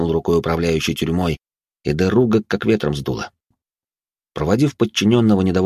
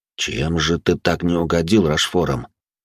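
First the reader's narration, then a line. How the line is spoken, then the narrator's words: Muttered under breath. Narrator (Russian): буркнул себе под нос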